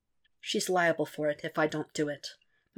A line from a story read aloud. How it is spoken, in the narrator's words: Matt says quietly